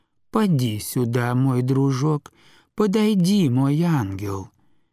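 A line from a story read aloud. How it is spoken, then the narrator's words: Touching, tender voice. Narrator (Russian): заговорила трогательным, нежным голосом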